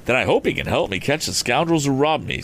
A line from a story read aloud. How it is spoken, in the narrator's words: said Tom